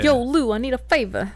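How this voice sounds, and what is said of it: Put-on New York accent. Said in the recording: “I feel like my New York accent is really good.”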